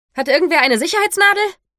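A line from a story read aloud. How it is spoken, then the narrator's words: Startlingly loud voice. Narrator (German): Ihre Stimme war laut genug, dass alle um uns herum zusammenzuckten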